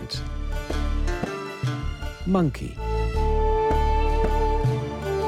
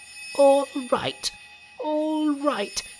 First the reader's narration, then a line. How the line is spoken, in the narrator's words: he cried